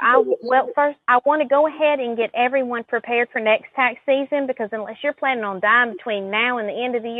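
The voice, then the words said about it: Southern American accent. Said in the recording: “don't let the Southern accent fool you.”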